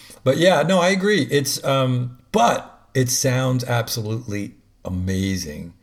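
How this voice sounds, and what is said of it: Usual voice. Nothing is said of it.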